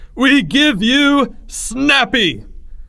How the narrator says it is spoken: Greg yelled

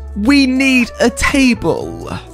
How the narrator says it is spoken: Karen screams

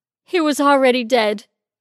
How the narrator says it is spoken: Denise said, between overly dramatic chest-heaving sobs

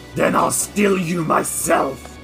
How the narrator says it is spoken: snarls and says

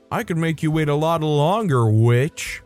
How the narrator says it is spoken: he yelled out

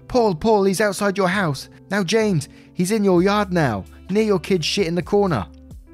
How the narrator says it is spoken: I started yelling

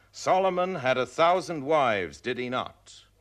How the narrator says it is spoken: an indignant male voice rose loudly from somewhere in the audience

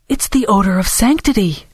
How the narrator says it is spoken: Dora exclaimed, pretending to have only just noticed it herself

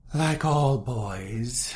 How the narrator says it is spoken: said at last with a sigh

